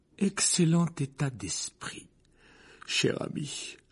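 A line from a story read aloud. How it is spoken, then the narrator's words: Sleepy voice. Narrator (French): répondit son reflet d'une voix endormie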